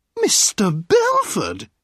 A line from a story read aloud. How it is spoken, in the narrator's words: a sweet voice cried